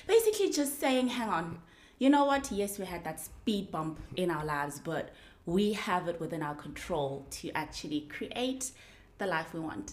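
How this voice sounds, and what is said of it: South African Johannesburg accent. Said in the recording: “I've been told it's a British accent. It is not British. This accent is from South Africa, Johannesburg, to be specific”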